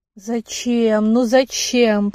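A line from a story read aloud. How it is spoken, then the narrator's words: Pleading moan. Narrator (Russian): простонала умоляюще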